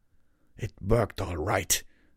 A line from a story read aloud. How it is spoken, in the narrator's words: Redbrand muttered